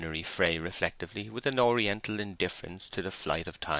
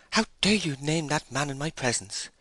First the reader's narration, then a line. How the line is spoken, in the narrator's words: she said excitedly